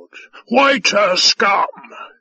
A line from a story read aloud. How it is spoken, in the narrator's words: he bellowed